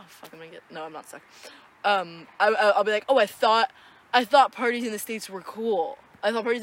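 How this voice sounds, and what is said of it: Usual voice. Nothing is said of it.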